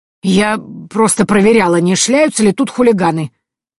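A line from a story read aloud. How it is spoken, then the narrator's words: Displeased grumbling old woman. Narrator (Russian): проворчала бабка, недовольно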